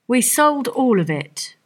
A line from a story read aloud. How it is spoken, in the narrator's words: replied Fagin